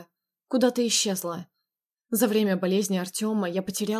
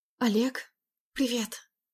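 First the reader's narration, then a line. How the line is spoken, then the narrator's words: Quiet whisper. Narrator (Russian): Шепнула тихо, давая понять, что надо быть потише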